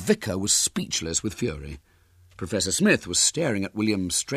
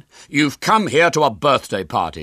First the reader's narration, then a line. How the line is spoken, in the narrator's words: said William sternly